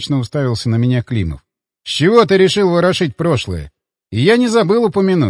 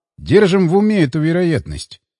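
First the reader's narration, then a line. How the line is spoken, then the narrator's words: Calm. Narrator (Russian): спокойно продолжил я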